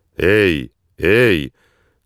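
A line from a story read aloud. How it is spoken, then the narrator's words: Loud booming bark. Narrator (Russian): зычно рявкнул Слик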